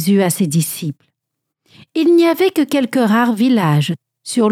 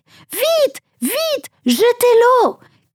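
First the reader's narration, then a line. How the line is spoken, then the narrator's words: Man shouting. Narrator (French): criait l'un des hommes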